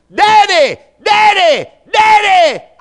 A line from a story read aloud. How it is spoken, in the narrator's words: her hollering